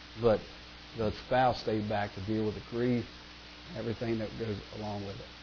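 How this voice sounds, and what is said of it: Strained, fading voice. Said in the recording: “I'm kind of losing my voice here”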